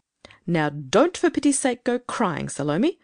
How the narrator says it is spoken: said irritably

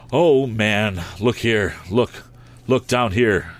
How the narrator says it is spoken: exclaimed the ghost

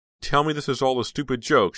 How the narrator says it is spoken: she said, her voice trembling

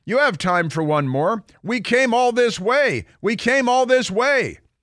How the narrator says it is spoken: somebody else yells, another reporter

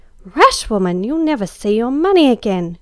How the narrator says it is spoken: cried Em

